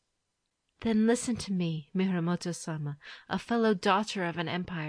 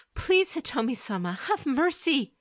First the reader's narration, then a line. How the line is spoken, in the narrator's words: the courtier cried